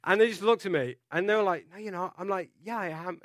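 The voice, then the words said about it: Non-native foreign accent. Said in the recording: “my accent gives me away ... obviously you're not native from this country”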